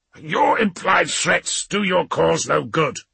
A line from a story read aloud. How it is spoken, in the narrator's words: Rantal spat